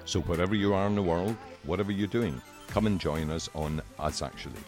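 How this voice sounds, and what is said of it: Scottish accent. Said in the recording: “I'm Scottish. It's my accent.”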